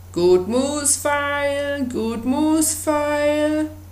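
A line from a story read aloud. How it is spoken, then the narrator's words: Peasant woman calling out. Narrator (German): eine Bauersfrau rief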